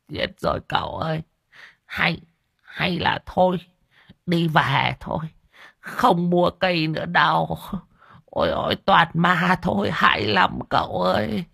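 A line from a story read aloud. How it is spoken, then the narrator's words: Old man's tearful whimper. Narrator (Vietnamese): Lão đồng mếu máo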